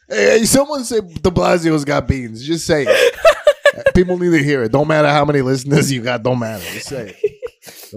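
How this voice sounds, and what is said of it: Impression of a typical dad's voice. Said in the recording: “That's my impression. Everybody's dad.”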